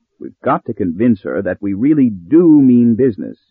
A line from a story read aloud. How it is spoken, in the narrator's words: he said